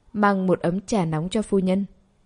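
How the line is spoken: Cold, after a sigh. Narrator (Vietnamese): Tẩm Lại thở hắt ra một hơi, trưng ra vẻ mặt lạnh lùng, nói

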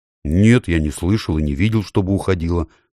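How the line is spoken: Plain. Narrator (Russian): сказал Юстас

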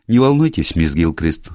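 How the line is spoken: Cheerful voice. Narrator (Russian): сказала она веселым голосом

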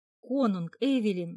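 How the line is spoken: Exclaim. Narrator (Russian): воскликнул Хакон

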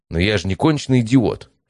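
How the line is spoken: Offended snapping. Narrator (Russian): обиженно грызнулся Матвей

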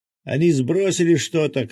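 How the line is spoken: Shouted. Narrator (Russian): крикнул Миша

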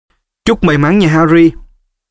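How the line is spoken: Shouted. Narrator (Vietnamese): Cho chàng hét

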